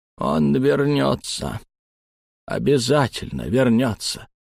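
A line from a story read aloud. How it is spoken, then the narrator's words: Lost old man muttering. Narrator (Russian): потерянно пробормотал старик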